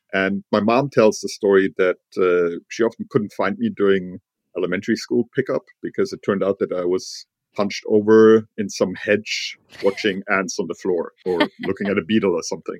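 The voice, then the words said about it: German accent in English. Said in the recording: “I grew up in Germany, in Heidelberg, as you might be able to tell from my accent.”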